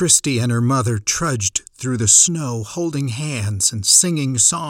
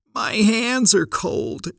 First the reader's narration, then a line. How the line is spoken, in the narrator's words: quite rightfully whined about the sub-zero night